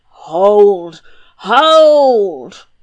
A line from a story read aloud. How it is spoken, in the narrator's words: roared Humdrum